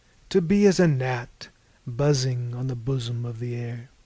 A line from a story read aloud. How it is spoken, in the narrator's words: sighed